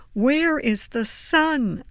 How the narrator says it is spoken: cried

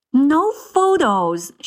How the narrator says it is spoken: she exclaimed

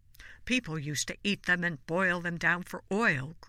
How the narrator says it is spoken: grumbled Lily's great-uncle Frederick

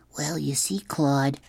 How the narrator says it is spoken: Jamie whispered

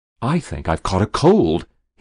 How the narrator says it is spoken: he ventured desperately

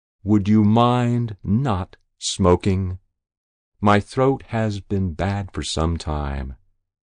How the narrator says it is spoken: smiled provocatively and asked very slowly

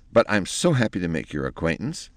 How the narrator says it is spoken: said Penelope in a relieved tone

